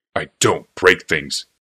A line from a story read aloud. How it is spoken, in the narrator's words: said Mishra hotly